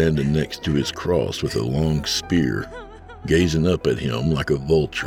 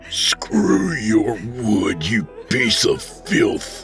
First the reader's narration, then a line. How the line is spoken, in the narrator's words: he snarled through gritted teeth